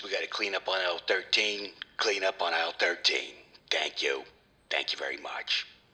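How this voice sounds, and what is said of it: Imitates a store cashier's PA announcement voice. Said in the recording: “did that voice sound somewhat familiar to you ... It actually reminded me of someone from another store. ... famous for getting on the microphone”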